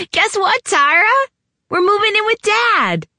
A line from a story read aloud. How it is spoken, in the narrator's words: she screeched nonsensically